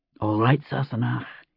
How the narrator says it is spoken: he whispered

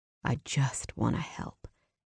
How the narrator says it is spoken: he said softly

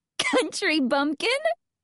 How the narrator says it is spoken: I squeal

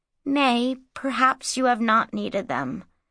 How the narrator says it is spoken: said Inanni gently

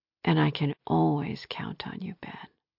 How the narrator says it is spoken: purred

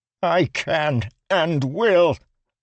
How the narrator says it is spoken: Lirin shouted

